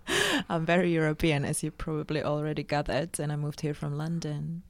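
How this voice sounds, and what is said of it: Slight Czech accent, faintly German-sounding. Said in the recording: “you had a little, there was like a German thing, but not enough to be like full blown ... Is that is it a Pragian accent?”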